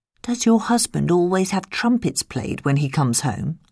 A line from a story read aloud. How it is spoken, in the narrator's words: asked Jack